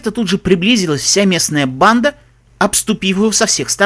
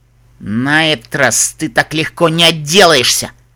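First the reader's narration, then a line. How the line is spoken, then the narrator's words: Leader growling. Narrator (Russian): прорычал главарь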